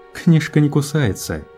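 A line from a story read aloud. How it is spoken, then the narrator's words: Laughing. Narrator (Russian): посмеялся Кларк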